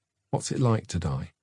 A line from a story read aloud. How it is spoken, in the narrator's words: The brother, in a low voice, almost whispered